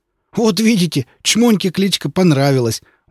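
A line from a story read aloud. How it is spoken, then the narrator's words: Exclamation. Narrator (Russian): воскликнул сосед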